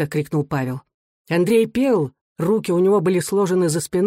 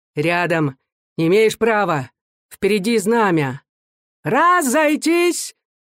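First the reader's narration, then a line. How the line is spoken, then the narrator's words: Thin-voiced shouting. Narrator (Russian): тонким голосом кричал маленький офицерик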